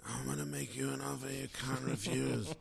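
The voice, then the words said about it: Godfather-style movie gangster impression. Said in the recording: “really is the Godfather saying ... That's a very good impression.”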